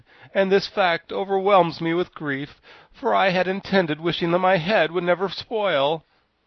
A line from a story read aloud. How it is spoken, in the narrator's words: wailed the Pumpkinhead